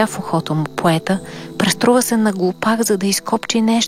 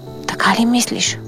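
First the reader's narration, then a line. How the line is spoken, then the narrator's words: Anxious whisper. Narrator (Bulgarian): прошепна разтревожен Берлиоз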